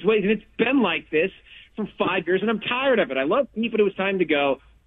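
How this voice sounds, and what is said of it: Yelling, loud agitated voice. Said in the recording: “sorry for yelling”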